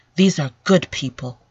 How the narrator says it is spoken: said more calmly

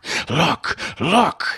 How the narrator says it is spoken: he shrieked, and his voice was that of a fiend who urges the damned to some further pit of perdition

